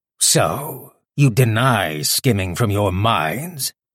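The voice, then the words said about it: Deep booming character voice. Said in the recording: “Malvorian's deep voice boomed in challenge”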